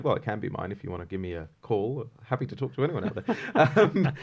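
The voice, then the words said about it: English accent. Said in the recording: “you have an accent ... You're going to hear a lot of an English accent today”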